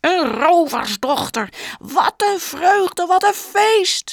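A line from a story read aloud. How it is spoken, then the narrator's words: Shout. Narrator (Dutch): schreeuwde Mattis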